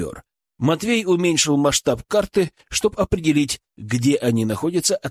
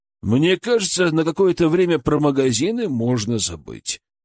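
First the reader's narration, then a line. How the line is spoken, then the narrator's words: Grim joking. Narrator (Russian): мрачно пошутил Матвей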